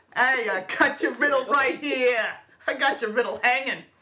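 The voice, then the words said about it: Put-on New Jersey accent. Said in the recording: “the Riddler with a Jersey accent would be the best!”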